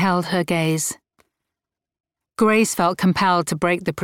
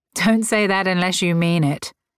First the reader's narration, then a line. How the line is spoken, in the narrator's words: Grace laughed